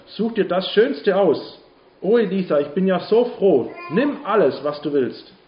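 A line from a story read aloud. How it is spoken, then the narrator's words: Called out. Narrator (German): rief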